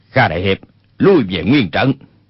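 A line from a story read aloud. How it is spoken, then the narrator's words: Sharp shouted command. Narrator (Vietnamese): quát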